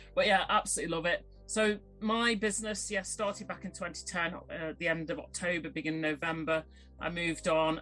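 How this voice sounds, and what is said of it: Northern English Stoke accent. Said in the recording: “originally from Stoke-on-Trent ... a proper Potteries girl ... I've still got a northern accent”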